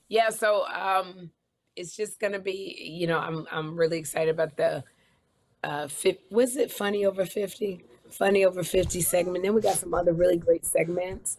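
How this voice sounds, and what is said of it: Hoarse, partly lost voice. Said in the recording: “I kind of lost my voice”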